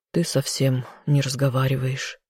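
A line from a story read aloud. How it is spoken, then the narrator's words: Worried sigh. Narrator (Russian): вздохнул он, не скрывая своего беспокойства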